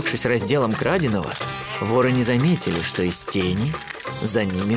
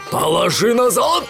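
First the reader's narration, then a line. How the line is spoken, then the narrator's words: Robber roaring. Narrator (Russian): взревел один из разбойников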